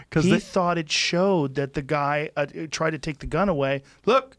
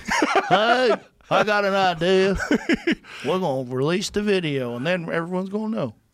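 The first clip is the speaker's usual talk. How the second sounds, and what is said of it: Put-on Southern accent. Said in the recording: “I'm doing the Southern accent.”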